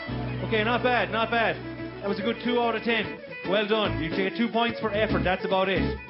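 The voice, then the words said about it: Thick accent. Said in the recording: “Is the accent too thick?”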